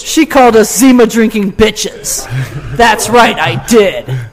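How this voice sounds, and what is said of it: Put-on radio voice. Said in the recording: “That's my radio voice. I hope it was impressive. ... That was worse than mine.”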